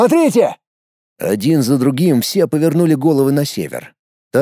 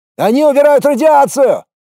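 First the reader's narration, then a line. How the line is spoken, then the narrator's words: Shouted. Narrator (Russian): закричал кто-то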